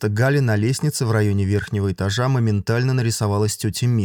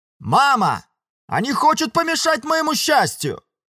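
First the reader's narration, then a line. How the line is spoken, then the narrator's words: Pompous shout. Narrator (Russian): С пафосом выкрикнула Циля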